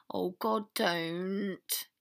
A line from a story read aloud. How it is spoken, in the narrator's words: he groaned